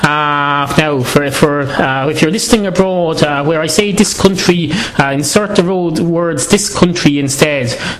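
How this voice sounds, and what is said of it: Irish accent. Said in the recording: “it's still done in an Irish accent”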